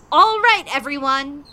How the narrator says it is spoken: I said loudly

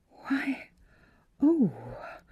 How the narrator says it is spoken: murmured Miss Philura with dazzled eyes

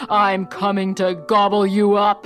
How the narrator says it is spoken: roared the troll

